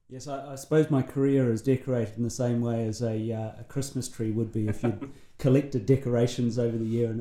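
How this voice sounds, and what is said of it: New Zealand accent, slightly softened. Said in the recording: “Grew up in New Zealand, as you can probably hear already from the accent. ... I think you're slowly losing it though”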